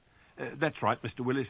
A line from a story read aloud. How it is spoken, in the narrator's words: I said, managing not to stammer